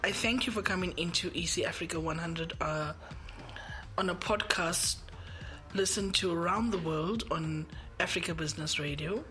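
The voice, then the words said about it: Sick, strained voice. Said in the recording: “Please excuse my voice. It's just been a hard day getting over the flu.”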